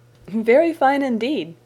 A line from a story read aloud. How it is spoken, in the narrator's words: said Miss Crawford, laughing